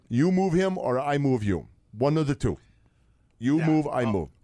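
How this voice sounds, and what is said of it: Put-on Russian-sounding accent. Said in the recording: “you're doing a Russian accent”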